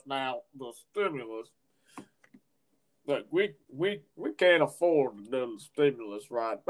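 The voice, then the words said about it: Imitates another person's voice. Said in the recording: “That's my best Mitch McConnell impression.”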